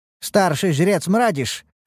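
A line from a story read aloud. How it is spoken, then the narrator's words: Calling out from behind. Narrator (Russian): окрикнул меня Хиват сзади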